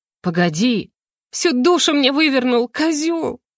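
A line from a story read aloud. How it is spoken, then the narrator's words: Sobbing. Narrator (Russian): всхлипнула Мара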